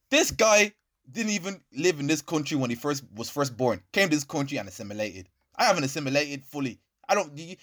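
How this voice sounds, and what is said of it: Mild Irish accent. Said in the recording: “I have an Irish accent, but not as hench as his one”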